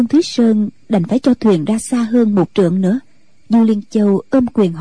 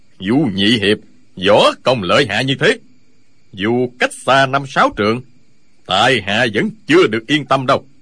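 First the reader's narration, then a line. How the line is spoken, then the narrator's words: Smiling. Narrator (Vietnamese): Lão Hành Khất mỉm cười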